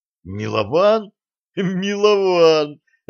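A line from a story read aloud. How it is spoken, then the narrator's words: Laughing. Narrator (Russian): расхохотался Булыцкий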